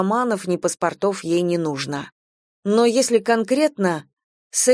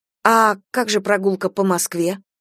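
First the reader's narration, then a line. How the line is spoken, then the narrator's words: Plain. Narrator (Russian): спросила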